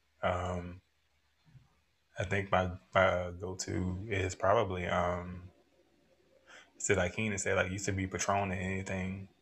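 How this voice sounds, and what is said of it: Unusually deep voice. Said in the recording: “Why your voice got so deep? ... It's the liquor.”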